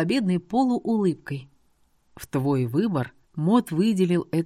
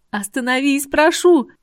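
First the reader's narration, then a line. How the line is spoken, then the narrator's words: Desperate shout. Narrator (Russian): кричала я, не в силах смотреть на то, какую ярость источает Мот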